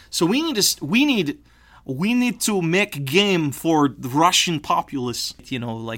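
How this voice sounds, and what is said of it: Bad put-on Russian accent. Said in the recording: “your shitty Russian accent”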